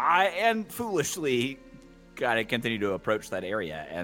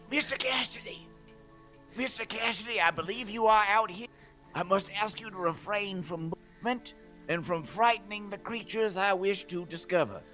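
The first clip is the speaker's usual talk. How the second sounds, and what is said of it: Whisper-shouting. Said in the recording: “that very stupid horror movie bit where you whisper shout.”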